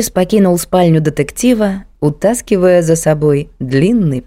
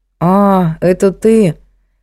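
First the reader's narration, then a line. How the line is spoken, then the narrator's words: Drawl. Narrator (Russian): протянул он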